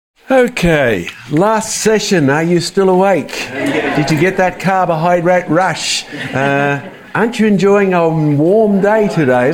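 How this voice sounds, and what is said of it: Mild Australian accent. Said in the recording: “my Australian accent? It's not too Australian ... So I don't have a broad Australian accent.”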